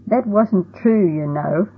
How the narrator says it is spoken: he said between laughs

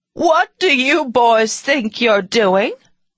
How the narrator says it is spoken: a woman suddenly screeched

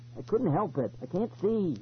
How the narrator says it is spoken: he cried

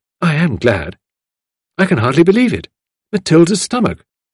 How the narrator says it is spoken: exclaimed Tuppence

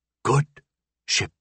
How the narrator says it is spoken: murmured

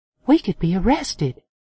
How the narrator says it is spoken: Tara whispered

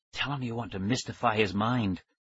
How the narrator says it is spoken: Tara whispered

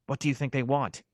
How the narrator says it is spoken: whispered

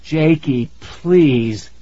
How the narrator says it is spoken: I begged

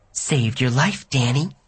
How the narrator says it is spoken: she whispered to me

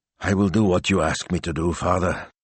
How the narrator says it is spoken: he mumbled

